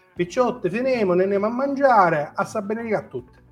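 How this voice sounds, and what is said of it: Sicilian dialect greeting. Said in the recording (Italian): “io in siciliano ... io sono di Marsala”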